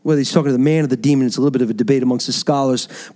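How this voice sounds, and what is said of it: New York accent. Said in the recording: “that's probably where the New York accent comes in”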